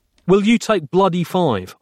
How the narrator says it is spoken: snapped, getting shirty

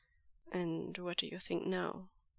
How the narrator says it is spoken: Lanjan asks him gently

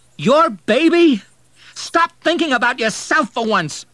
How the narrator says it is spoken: he shouted

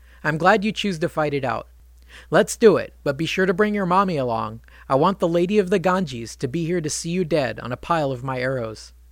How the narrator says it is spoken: He laughed and said

